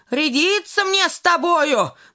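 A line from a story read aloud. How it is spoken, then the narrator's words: Shout. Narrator (Russian): закричал он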